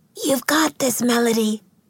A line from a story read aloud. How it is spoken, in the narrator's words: she whispered